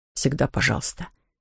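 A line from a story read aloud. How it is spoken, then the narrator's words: Soft reply. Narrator (Russian): мягко ответил товарищ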